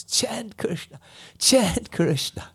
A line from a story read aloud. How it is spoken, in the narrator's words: in ecstasy and embraced all the trees and called out